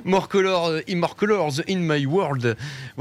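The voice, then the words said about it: English with a Ch'ti French accent. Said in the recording (French): “mon super accent ch'tanglais. C'est entre le ch'ti et l'anglais ... le ch'ti franglais”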